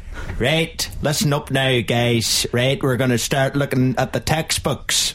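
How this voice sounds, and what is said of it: Imitated American teacher's voice. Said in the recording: “I could do my old geography teacher ... he's American. ... He was American.”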